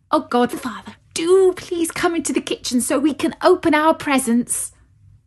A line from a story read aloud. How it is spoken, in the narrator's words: begged Clara